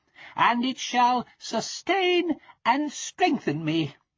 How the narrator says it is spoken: cried the little tailor

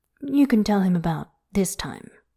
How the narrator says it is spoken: he says

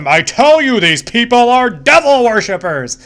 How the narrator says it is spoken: he yells at him

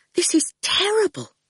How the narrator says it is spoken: Fifi whispered, looking really upset

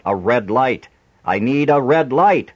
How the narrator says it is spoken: Adam shouted out

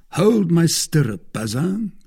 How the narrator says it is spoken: cried Aramis

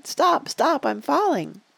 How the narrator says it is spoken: cried

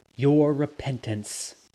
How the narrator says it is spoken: I said

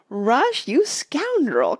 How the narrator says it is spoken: cried Mona, but she laughed as hard as everybody else

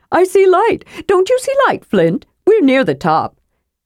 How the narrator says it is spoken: Then feeling Flint's arm tighten around his neck in a choking manner, Tass added hurriedly

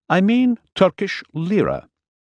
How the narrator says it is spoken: he said stiffly

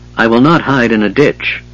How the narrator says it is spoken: the knight stated coldly

